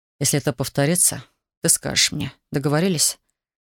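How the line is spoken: Grim speech. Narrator (Russian): мрачно произнес Александр

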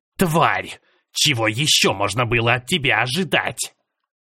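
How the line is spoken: Growled. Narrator (Russian): Прорычал десятый

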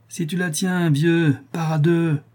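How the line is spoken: Sneering snicker. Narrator (French): dit Tortillard en ricanant

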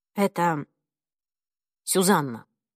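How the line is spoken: Calm. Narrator (Russian): спокойно ответил

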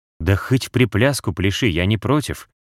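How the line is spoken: Cat's snorting reply. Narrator (Russian): хмыкнул в ответ кот

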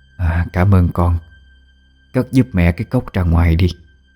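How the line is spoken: Soft. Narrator (Vietnamese): Bà khẽ nói

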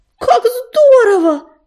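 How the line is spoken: Exclamation. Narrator (Russian): воскликнула она

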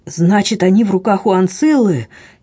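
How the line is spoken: Horrified exclamation. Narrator (Russian): с непередаваемым ужасом воскликнул Дрейф

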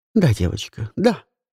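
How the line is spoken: Gentle reply. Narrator (Russian): Мягко отозвалась Леонор

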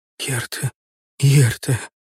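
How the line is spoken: Barely audible whisper. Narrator (Russian): еле слышно прошептала

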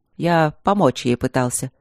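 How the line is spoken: Dry. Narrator (Russian): сухо сказал Трот

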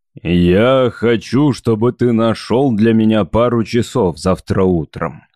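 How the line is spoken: Plain. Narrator (Russian): сказал Скороган

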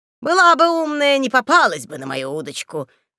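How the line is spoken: Chuckling. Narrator (Russian): хохотнул хозяин дома

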